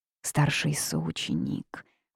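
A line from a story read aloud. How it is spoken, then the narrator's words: Dejected helpless whisper. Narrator (Russian): уныло прошептала Янь Хуэй в полном бессилии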